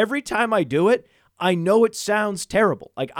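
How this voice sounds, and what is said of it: Usual voice. Nothing is said of it.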